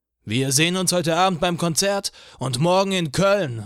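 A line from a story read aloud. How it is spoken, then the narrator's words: Shouted through megaphone. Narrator (German): rief Eugene mit einem Megafon in die Menge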